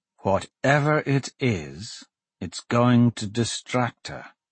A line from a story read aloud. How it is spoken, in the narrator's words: Dante said slowly